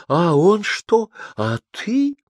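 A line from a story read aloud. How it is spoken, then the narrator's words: Anxious girlish voice. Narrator (Russian): монашка говорила, спрашивая взволнованно, очень по-девичьи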